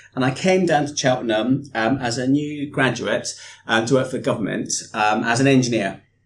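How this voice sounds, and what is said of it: Slight Scottish accent. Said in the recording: “up in Scotland, where I'm from. You can probably hear a little bit of my accent.”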